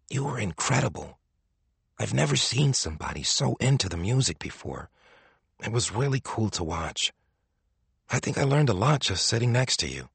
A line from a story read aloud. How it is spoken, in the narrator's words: His stand partner whispered, eyes wide